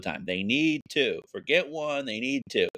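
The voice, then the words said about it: Imitates another person's voice. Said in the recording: “my Luke impression.”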